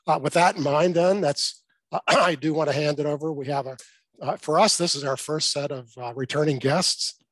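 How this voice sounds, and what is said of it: Strained, fading voice. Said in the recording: “I'm losing my voice”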